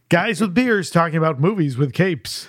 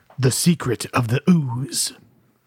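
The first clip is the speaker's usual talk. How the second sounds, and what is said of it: Spooky, scary voice. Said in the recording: “scary voice”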